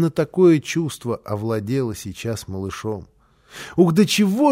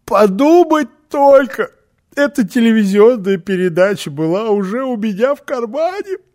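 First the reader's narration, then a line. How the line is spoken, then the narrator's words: Sobbing speech. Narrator (Russian): всхлипывая, сказала Фрёкенбок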